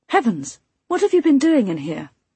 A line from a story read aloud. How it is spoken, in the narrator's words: I gasped